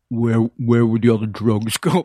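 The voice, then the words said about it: Imitates another person's voice. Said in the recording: “my Ving Rhames impersonation.”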